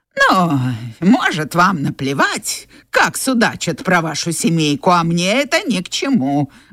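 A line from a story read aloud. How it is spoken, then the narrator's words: Grumbling. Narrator (Russian): ворчала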